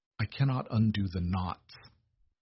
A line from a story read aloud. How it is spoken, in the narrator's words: Beatrice whispered